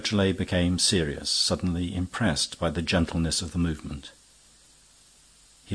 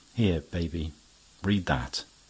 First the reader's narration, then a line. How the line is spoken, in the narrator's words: said, very calmly